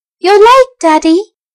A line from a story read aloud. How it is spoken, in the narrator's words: a boy's voice cried